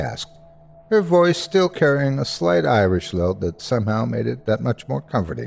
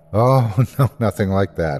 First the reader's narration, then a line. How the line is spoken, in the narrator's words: I laughed